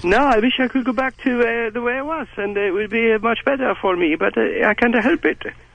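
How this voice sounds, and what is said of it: Strange, hard-to-place foreign accent. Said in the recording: “speaking in a foreign language, basically, at least a foreign accent ... it's hard for them to place where it is and where it's from, and they say it's very strange sounding to them”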